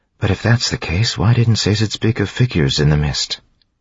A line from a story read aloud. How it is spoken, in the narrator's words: She sighed